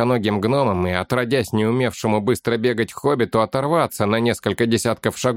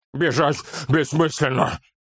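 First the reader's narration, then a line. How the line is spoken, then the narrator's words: Roaring. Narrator (Russian): проревел он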